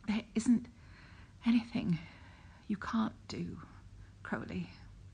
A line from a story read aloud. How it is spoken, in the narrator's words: he panted, breath small and warm against Crowley's mouth